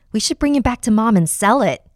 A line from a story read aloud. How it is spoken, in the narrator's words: Jamie exclaimed